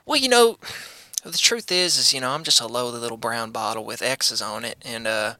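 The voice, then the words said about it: Southern accent with a twang. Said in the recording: “are you mocking me with that accent? I feel like you started talking with more of a southern accent ... You have a little bit of a twang ... from the holler”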